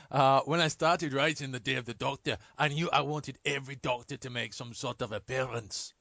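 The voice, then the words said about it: Bad put-on Scottish accent, Steven Moffat. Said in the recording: “In his best Scots accent, Stephen Moffat, who isn't ... and your ... actually ... worst. ... Scottish.”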